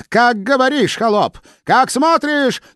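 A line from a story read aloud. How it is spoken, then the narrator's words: Screaming queen. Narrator (Russian): завопила царица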